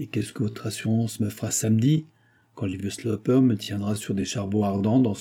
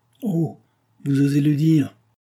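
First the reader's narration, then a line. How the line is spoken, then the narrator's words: Ironic exclamation. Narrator (French): s'écria ironiquement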